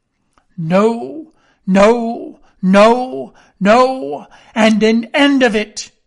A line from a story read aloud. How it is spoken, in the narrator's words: he cried once and again